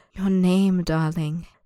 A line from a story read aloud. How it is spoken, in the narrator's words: the man purrs, so soft it feels as if he hasn't spoken the words at all